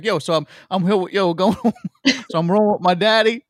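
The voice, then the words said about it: Put-on hardcore New Jersey accent. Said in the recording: “in like a very hardcore New Jersey”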